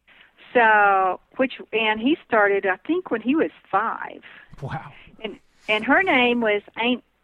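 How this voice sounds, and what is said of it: Southern US accent. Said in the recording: “my southern accent was coming out there. I started saying Aunt.”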